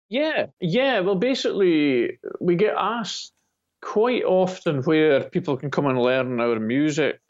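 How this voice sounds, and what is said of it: Speaks with a distinctive regional accent. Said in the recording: “It could be my dialect. ... I truly love your accent. It's just fascinating.”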